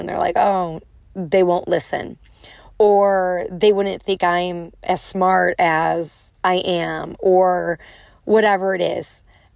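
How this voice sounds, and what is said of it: Strong Chicago accent. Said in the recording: “I'm from Chicago, I have a strong accent”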